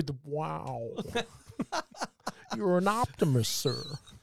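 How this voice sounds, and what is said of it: Imitates another person's voice. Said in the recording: “It sounds like it's going to start with a bit of Christopher Walken, but it's pretty good ... good impersonation”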